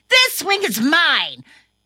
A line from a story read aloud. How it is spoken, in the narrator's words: he got angry and yelled